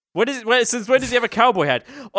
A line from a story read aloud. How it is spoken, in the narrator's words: Aunt Petunia laughed